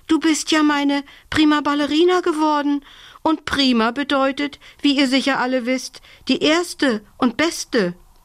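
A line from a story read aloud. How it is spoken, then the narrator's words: Gasping. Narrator (German): japste sie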